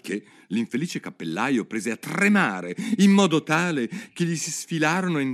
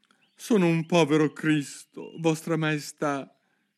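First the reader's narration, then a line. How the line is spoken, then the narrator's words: Trembling voice. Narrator (Italian): cominciò il cappellaio con voce tremula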